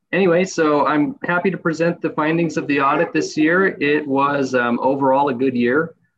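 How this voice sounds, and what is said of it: Voice weakened by a cold. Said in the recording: “I am recovering from a little bit of a cold, so my voice is not quite there.”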